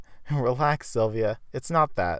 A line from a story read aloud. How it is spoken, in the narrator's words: Esther said while holding back laughter